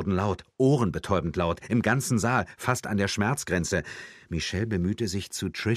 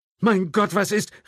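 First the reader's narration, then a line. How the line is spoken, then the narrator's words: Someone calling out. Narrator (German): rief jemand neben Michelle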